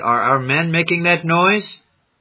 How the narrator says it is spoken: called Susi

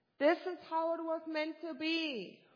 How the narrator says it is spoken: he shouted

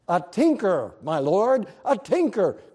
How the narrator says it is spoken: cried a chorus of voices

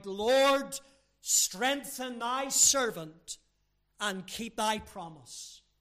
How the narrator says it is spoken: several young children cried

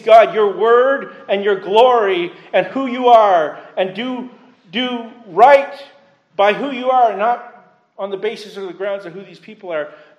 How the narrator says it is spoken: Moses pleads

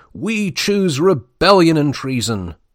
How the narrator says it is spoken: the unexpected reply has been thundered back

